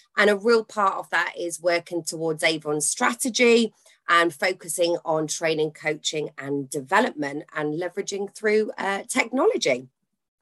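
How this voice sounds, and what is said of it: Northern English accent. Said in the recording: “I love your accent ... I'm very, very northern as well”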